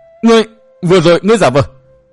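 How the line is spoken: Shocked, panicked scream. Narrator (Vietnamese): Sắc mặt Giang Ngọc Lang biến thành màu đất, hắn hét lên thất thanh

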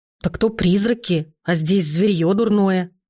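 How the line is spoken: Creature growling. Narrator (Russian): Притаившееся в темноте существо с горящими глазами рыкнуло

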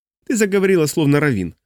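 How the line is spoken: Smirking grunt. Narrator (Russian): хмыкнул Василь

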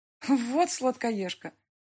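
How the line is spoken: Laughing. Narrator (Russian): рассмеялась Люба

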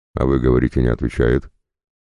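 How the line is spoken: Triumphant snort. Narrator (Russian): торжествующе хмыкнул Шувалов

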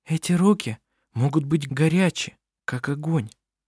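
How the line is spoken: Whispering. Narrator (Russian): прошептала Винга остальным

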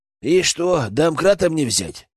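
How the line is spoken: Snorting. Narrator (Russian): хмыкнул Генка

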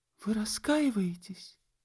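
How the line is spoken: Tender cooing. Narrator (Russian): Энн что-то проворковала нежно, прибавив под конец

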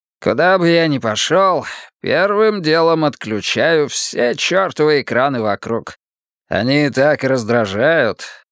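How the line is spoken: Grumbling. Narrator (Russian): проворчал Ши Цян

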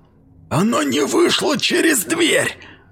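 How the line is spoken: Furious hiss. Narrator (Russian): в ярости прошипел мейсер

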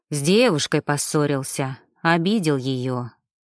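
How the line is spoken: Heavy sigh. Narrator (Russian): тяжело вздохнул Шведов

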